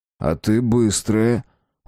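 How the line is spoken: Respectful tone. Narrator (Russian): уважительным тоном говорит Давид

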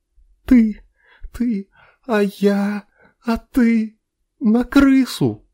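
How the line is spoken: Sobbing. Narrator (Russian): Рыдала она

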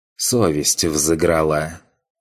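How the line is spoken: Grumbled. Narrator (Russian): буркнул бывший студент

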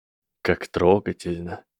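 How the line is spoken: Boy's cold reply. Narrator (Russian): холодно ответил мальчик

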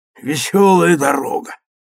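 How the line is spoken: Hoarse and loud. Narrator (Russian): сказал он хрипло и громко

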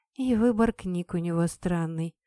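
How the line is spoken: Mutter. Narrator (Russian): пробормотала я

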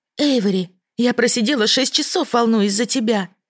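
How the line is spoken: Exclaiming. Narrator (Russian): воскликнула наставница

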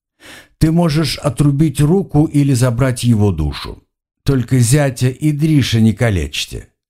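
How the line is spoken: Laughing amused. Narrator (Russian): засмеялся я, вспомнив рожу толстяка

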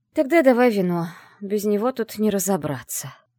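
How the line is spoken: Sighing. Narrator (Russian): вздохнула я

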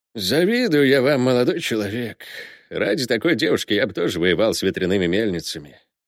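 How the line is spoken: Sighing. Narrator (Russian): вздохнул смотритель

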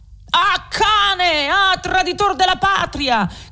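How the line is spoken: Frenzied furious shout. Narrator (Italian): gridò con un viso da indemoniato, un di coloro che avevano potuto sentire tra il frastuono quelle sante parole

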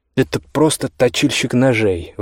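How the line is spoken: Exclaimed. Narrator (Russian): воскликнула Иоганна

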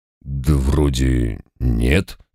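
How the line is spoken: Doubtful drawl. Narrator (Russian): с сомнением протянул домовой

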